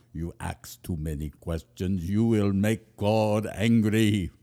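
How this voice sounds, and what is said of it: Put-on German accent. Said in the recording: “There was just a little German in her accent. It probably wasn't as big as I just acted out... that's closer... my German accent blurs with my Irish and Swedish”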